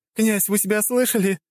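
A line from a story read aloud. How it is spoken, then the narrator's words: Laughing. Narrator (Russian): хохотала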